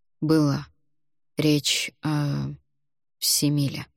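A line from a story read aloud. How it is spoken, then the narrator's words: Quiet speech. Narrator (Russian): Альгидрас негромко произнес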